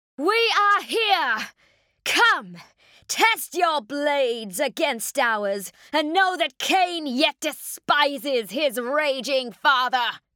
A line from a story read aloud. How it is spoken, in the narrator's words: defiant shout went almost unheard amongst the tumult of tortured wraithbone and bellowing of bloodthirsty demons